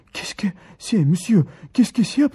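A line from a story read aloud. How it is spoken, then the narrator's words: Trembling voice. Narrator (Russian): произнес он трепещущим голосом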